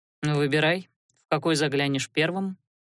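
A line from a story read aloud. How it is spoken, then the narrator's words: Calm reply. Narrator (Russian): спокойно откликнулся тот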